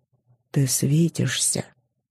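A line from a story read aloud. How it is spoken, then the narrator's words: Quiet male voice. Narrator (Russian): тихо сказал он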